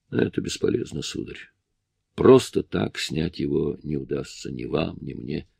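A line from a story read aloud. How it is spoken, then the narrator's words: Quiet speech. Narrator (Russian): Ян тихо сказал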